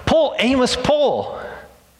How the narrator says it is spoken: He yelled

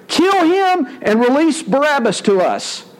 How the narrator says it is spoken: a mighty roar rose from the crowd, and in one voice they shouted

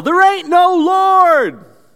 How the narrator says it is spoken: the atheist neighbor would come out onto his porch, and he would yell

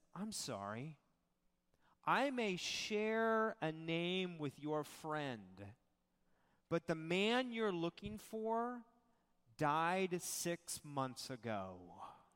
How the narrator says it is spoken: slowly looks up at the woman, looks into her face, and says

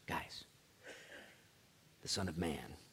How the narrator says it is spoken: he whispers

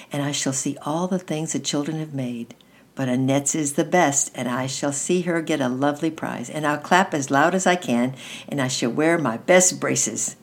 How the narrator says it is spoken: he murmured

